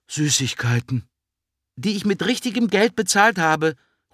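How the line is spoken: Quick call. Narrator (German): ruft Ella schnell

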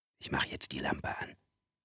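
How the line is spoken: Whisper. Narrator (German): flüsterte er

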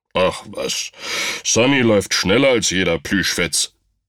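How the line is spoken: Grumbling. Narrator (German): brummte Rumpel

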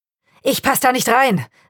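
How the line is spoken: Man calling out. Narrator (German): rief der Mann

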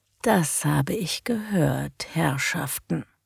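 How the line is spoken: Dangerously quiet. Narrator (German): sagte gefährlich leise

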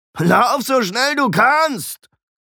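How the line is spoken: Mocking. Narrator (German): höhnte Alberich

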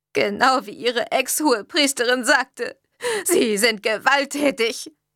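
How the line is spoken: Sobbing. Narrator (German): schluchzte Mrs

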